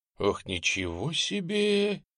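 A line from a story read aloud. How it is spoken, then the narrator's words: Breathless, overcome with emotion. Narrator (Russian): выдохнул Немченко, не сдержав эмоций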